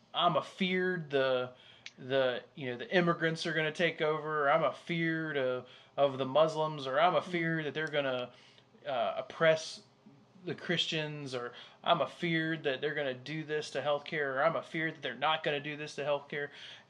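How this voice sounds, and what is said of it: Put-on Southern US accent. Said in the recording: “what that accent was ... From the South.”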